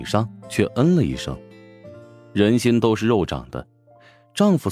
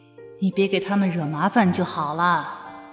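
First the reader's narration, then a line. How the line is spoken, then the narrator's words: Silent inner sigh. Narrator (Chinese): 陶南方心里暗叹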